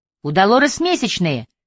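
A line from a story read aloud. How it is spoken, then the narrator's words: Startled shout. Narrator (Russian): выкрикнул он от неожиданности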